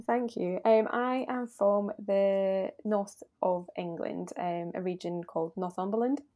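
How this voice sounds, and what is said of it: Northern English accent. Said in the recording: “I love your accent. You got a nice little accent going on there.”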